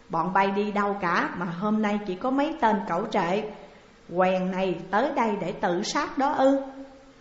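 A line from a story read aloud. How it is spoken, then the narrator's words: Calm loud laughter. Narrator (Vietnamese): Chàng bình tĩnh khoanh tay cười lớn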